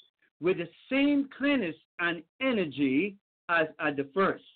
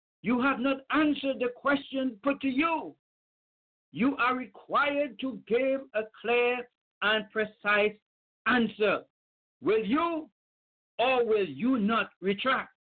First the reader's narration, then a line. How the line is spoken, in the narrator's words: the spokesman of the diet or of the council said angrily